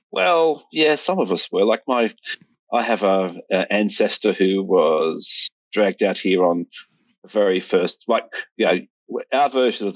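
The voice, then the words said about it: Australian accent. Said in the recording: “I'm in Sydney, Australia. ... That's why I sound so weird.”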